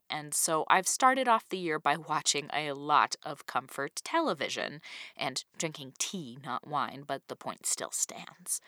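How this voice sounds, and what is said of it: Sick-sounding voice. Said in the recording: “as you can probably hear in my voice, I've been sick for a really annoyingly long time now”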